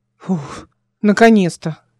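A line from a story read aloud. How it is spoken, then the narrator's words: Exhaled. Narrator (Russian): выдохнул Димка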